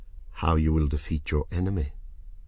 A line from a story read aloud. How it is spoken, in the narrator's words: Serret said in her soft voice